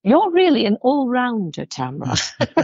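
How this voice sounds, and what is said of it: Bad imitation of British accent. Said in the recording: “she's UK, from the UK ... that's a bad impression of her, actually. It's like, really bad.”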